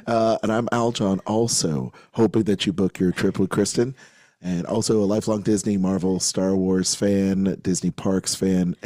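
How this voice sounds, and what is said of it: Hoarse, raspy voice. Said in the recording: “I sound like I've been hanging out with a, a bunch of uh, poker players because my voice is shot, shot ... hanging out with a bunch of smokers”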